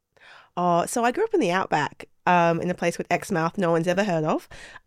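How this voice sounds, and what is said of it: Australian accent. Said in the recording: “the other accent you started to hear there ... from Oz”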